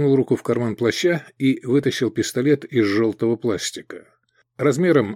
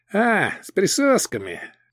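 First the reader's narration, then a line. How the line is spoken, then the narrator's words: Goblin smirk. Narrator (Russian): гоблин хмыкнул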